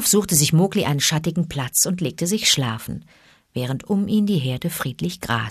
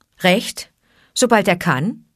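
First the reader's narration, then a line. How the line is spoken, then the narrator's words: Dry repetition. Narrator (German): wiederholte Mowgli trocken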